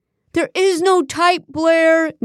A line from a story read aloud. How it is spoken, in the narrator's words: Nate screamed mid-sob